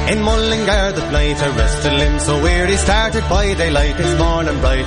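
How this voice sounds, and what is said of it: Singing with strong Irish accent. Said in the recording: “I'd say that's pretty good Irish accent there. ... Oh yeah, he's full-blown Irish.”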